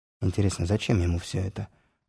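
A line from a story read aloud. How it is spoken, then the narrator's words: Whispered question. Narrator (Russian): шепотом спросил меня Загорецкий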